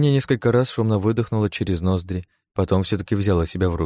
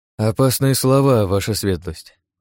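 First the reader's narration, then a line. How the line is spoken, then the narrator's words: Sighing. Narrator (Russian): вздохнул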